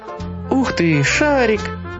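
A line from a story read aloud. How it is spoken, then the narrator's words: Excited child. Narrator (Russian): воскликнул мальчик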